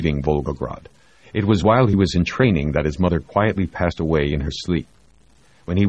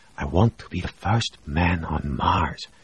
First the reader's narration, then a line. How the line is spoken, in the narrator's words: Mikhail whispered